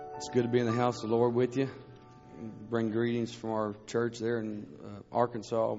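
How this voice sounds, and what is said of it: Scratchy voice. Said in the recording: “My voice is pretty scratchy”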